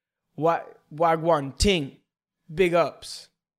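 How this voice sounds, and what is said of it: Put-on Jamaican accent. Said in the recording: “take like a Jamaican accent”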